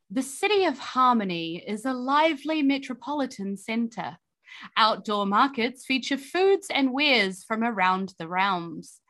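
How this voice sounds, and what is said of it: Storybook narrator voice. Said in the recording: “narrator voice”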